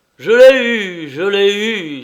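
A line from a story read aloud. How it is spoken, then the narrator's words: Exclaiming. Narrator (French): s'écriait-il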